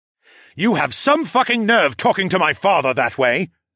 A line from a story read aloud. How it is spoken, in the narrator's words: the douche yelled